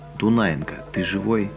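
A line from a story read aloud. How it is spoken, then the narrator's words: Quiet question. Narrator (Russian): Григорий тихо спрашивает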